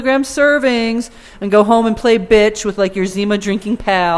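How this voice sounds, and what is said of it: Usual voice. Nothing is said of it.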